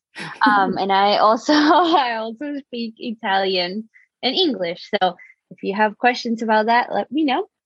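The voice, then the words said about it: Argentine Spanish accent. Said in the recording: “I'm originally from Argentina, so that's why you might hear a crazy accent”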